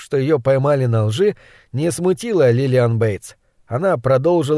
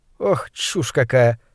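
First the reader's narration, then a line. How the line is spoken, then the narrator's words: Laughing. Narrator (Russian): смеялась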